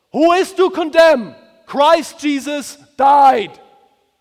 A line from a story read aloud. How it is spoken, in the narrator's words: he shouts with a loud voice